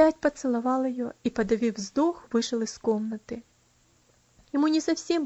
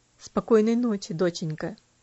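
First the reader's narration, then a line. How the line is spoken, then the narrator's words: Quiet. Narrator (Russian): тихо сказал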